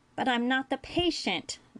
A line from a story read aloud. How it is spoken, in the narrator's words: Nog whined